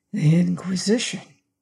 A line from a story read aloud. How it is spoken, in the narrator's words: quoth Don Federigo in a whisper